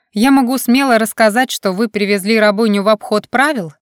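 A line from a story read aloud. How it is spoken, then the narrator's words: Shout after departing man. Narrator (Russian): крикнула вдогонку удаляющемуся мужчине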